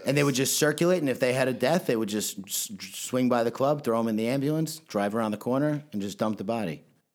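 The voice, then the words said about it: New York Long Island accent. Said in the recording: “you're from New York, right? ... I couldn't tell from the accent. ... Long Island?”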